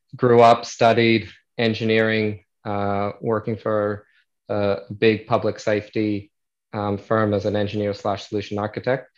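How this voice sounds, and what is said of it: American accent. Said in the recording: “you'll still hear my American accent.”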